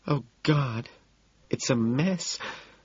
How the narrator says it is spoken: Evelyn gasps

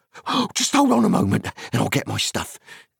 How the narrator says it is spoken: cried Sam eagerly

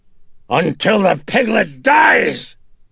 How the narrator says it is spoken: Face contorted in sudden rage, Reagan shouted in fury

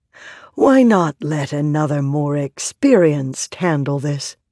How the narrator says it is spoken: a kindly lesser scribe said

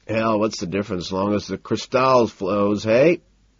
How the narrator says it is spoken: He chuckles

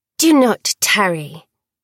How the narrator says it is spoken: the maidservant snapped

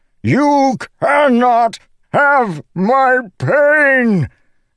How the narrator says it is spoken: Dalinar bellowed

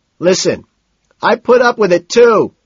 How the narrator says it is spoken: Price shouts

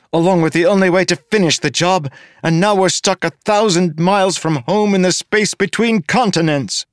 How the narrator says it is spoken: shouted

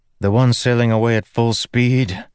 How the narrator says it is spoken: Kaladin said with a sigh

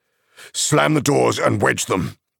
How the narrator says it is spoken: shouted Aragorn

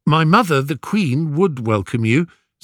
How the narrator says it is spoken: said Telemachus

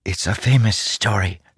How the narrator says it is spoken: Chala whispered to him from the side

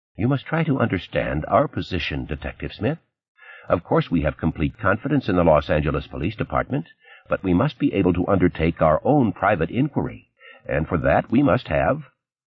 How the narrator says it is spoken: Ishigara said calmly

